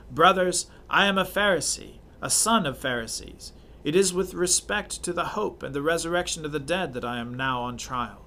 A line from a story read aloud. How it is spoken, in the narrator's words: he cried out in the council